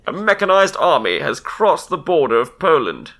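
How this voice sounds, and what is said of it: Put-on newsreel announcer accent. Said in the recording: “Damn, I love your accent.”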